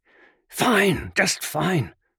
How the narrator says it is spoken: Locke whispered

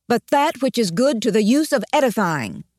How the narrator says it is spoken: he quoted in a loud voice from Ephesians

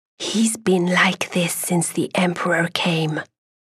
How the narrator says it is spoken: whisper

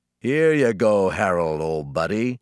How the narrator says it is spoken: he said, with a throaty chuckle

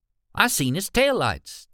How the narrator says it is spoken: Tommy said, his voice high with excitement

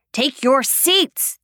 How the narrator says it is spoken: yells again

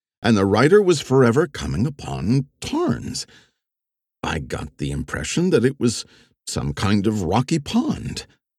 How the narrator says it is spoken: she said earnestly

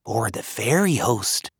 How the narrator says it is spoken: Brona whispered

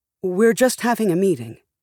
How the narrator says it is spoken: said Elise

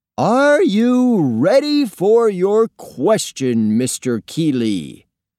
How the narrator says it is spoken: boomed Mr

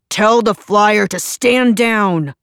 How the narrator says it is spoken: Pearson barked

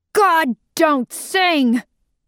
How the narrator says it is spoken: she screamed

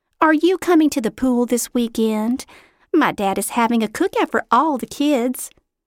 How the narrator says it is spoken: she said sweetly

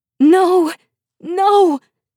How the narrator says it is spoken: I shout, though my voice breaks in the air into shattered fragments

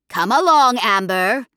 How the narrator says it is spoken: she said loudly

